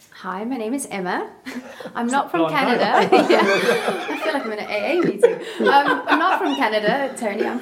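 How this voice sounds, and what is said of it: South African accent. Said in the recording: “mistook ... accent for Canadian rather than South African”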